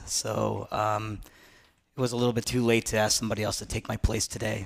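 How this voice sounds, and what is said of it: Hoarse, strained voice. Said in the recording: “I lost my voice ... this is not my normal voice ... the hoarseness”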